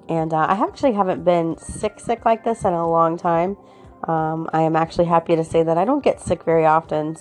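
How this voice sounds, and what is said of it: Sick-sounding voice. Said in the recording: “I am so sick... As you can hear in my voice, I'm just not myself.”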